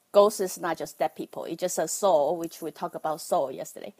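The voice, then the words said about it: Taiwanese-accented English. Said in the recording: “I'm from Taiwan. That's why you have to bear with my Taiwanese accent.”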